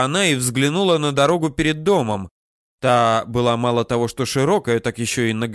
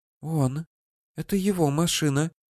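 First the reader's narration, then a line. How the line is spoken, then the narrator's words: Whisper. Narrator (Russian): прошептала Руся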